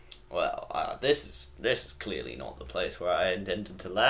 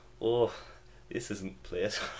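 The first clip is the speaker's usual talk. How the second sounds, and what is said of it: Bad put-on Scottish accent. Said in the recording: “I'm not going to try to do Scottish. That's going to be worse. ... That's your Scottish? ... Told you it's worse!”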